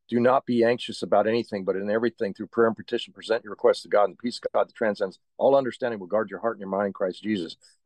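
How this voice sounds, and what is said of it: Recites very fast. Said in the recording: “That's why I can say it so fast,”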